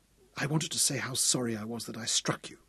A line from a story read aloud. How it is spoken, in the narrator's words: she whispered